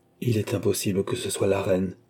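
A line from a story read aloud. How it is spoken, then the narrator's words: Murmured. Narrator (French): murmura-t-il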